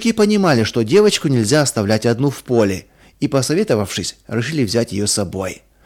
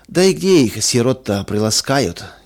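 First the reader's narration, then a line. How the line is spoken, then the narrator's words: Heavy sigh. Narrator (Russian): тяжело вздохнул третий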